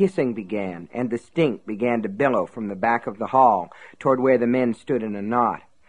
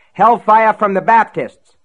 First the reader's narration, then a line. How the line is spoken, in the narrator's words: someone yelled from outside